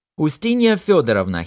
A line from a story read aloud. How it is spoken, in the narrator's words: he shouted in a loud voice